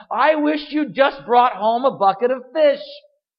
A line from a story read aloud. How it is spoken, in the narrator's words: she yelled at him